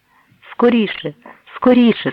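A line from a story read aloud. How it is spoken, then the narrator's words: Panicked cry, near breakdown. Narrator (Ukrainian): скрикнула Сара на межі нервового зриву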